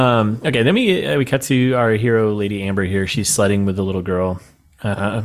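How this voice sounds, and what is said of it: Usual voice. Nothing is said of it.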